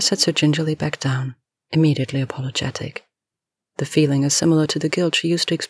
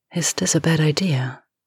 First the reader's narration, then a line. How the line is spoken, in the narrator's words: she asks, her voice still breathy